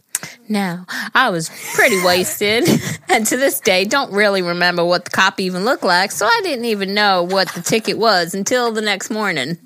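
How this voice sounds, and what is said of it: Country accent mixed with Long Island. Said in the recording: “Your country accent is mixed with Long Island.”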